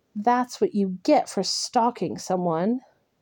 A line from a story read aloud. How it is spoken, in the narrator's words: he chuckled